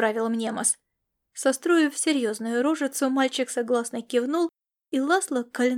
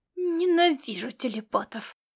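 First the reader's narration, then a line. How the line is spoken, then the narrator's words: Groaned inwardly. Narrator (Russian): простонал Ласло про себя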